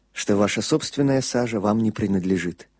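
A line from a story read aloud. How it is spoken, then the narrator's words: Quiet priest's voice. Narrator (Russian): тихо добавил священник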